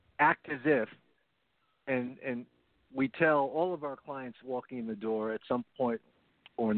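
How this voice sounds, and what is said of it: Usual voice. Nothing is said of it.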